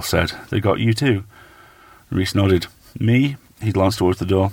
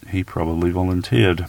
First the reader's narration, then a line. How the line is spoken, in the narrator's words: Ball said quietly